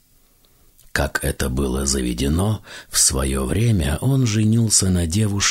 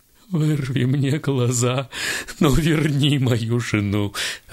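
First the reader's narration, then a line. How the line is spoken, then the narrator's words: Sobbing. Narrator (Russian): рыдал вдовец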